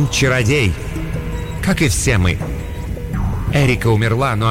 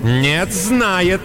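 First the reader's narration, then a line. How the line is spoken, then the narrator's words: Said angrily. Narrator (Russian): сердито сказала Моргана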